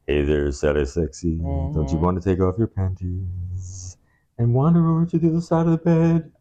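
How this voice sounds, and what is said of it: Deep, seductive crooner voice impression. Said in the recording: “Barry White ... With the deep voice.”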